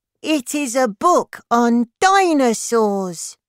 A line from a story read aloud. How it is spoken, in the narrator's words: cried Olivia Crocodile